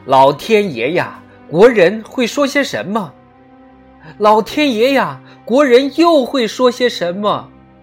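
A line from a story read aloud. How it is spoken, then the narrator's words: Repeated anguished shouting. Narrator (Chinese): 当战争失利的报告送进来时，他一遍又一遍的叫嚷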